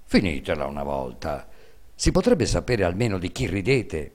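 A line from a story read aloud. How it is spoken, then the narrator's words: Father speaking resentfully. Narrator (Italian): Il babbo, che non sapeva il motivo di questo gran buon umore, disse con voce risentita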